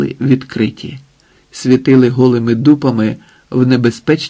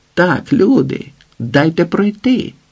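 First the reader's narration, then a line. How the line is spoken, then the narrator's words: Forced cheerful shout. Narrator (Ukrainian): гукнув демонстративно весело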